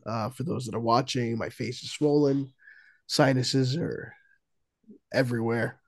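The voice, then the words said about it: Quiet, losing voice, sick. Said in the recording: “feeling a bit sick today ... a little quieter and not quite as vocal ... losing my voice, as you could tell ... I apologize for, how I sound”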